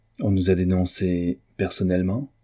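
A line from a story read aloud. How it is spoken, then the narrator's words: Calm question. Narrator (French): demanda Gretzky d'une voix calme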